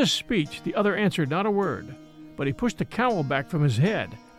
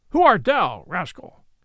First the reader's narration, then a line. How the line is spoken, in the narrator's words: said he at last, in a loud, harsh voice